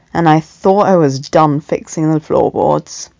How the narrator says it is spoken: he muttered

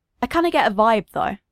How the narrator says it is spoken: he said

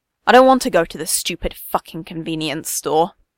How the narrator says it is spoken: Katsuki growls

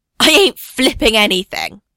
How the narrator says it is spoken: Steve yells back

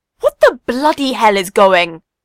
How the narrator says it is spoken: Sirius's voice booms

